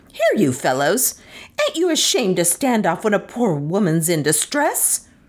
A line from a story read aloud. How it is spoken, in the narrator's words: with a terrific screech to three countrymen at a distance